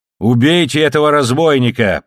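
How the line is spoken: Shrill shouting. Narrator (Russian): пронзительно кричал

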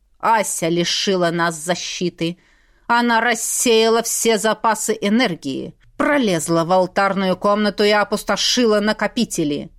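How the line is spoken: Icy accusing father. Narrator (Russian): ледяным тоном обличил отец

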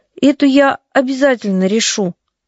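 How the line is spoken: Uncertain. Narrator (Russian): неуверенно сказала Настя

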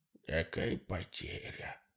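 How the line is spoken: Old man muttering. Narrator (Russian): Дед пробормотал себе под нос

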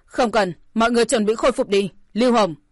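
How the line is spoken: Shouted. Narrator (Vietnamese): Tổ Vũ đã quát

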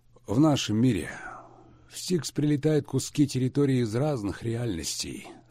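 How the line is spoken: Sleepy muttering. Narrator (Russian): сонно пробормотал Кирилл

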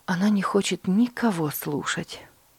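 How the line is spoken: Sighing mother. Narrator (Russian): вздохнула мама

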